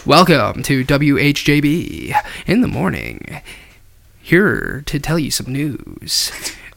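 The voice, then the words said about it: Radio announcer voice. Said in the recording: “do a radio voice”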